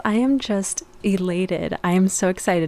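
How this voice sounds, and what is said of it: Joyful, excited voice. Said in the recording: “Can you hear the joy in my voice?”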